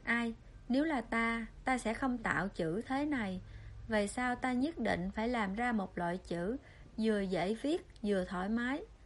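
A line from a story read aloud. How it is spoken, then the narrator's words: Sighing. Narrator (Vietnamese): Dân Thiển Nguyệt thở dài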